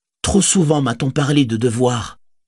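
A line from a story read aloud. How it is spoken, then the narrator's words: Exclaiming. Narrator (French): s'écria-t-elle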